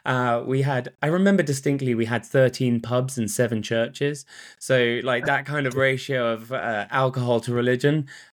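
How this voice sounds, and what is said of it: British English accent. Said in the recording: “where your accent's from ... born in the UK, grew up just outside of Oxford”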